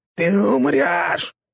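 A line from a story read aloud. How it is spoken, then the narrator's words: Growled threat. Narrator (Russian): прорычала она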